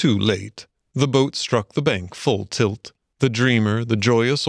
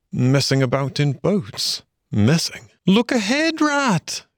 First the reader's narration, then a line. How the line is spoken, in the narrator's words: cried the mole suddenly